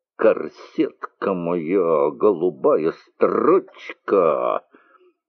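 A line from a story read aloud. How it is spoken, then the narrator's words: Singing through clenched teeth. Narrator (Russian): Напевала сквозь зубы ярмарочную частушку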